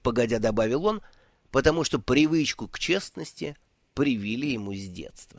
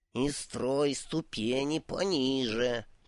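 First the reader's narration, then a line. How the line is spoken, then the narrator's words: Strained hiss while climbing. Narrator (Russian): прошипел бог, с трудом взбираясь на очередную ступеньку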